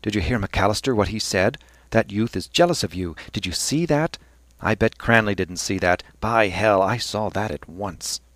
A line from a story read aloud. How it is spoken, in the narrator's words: Temple bent eagerly across Cranley's breast and said